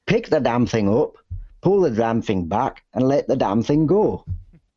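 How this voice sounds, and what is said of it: Poor put-on Irish accent. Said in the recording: “my Irish accent is terrible... It's terrible Irish accent. sounded more like you were from Lancashire.”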